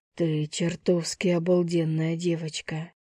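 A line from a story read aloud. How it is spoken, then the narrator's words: Breathless exhale. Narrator (Russian): Выдохнул он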